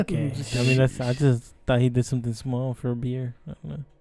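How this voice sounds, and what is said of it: Usual voice. Nothing is said of it.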